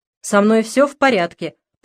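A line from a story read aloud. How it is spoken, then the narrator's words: Stubborn irritated repeating. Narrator (Russian): повторял он упрямо и раздраженно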